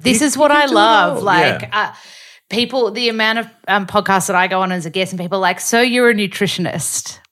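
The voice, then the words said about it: Australian accent. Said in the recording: “my accent so that they can learn the Australian accent ... Australian dialect ... that Aussie accent”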